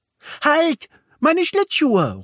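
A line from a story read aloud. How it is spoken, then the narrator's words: Called out. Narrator (German): ruft Milli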